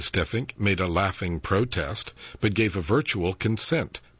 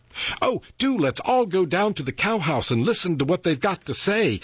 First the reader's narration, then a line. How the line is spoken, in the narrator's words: exclaimed Beryl, to whom anything was thrilling and amusing if you did it in a troop